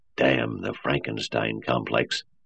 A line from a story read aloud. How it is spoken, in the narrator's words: Lanning would mutter